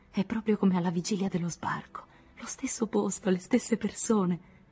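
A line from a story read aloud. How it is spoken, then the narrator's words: Moved voice. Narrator (Italian): Anne disse con voce commossa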